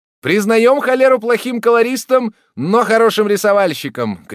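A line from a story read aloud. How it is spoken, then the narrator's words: Several voices shouting together. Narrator (Russian): крикнуло разом несколько голосов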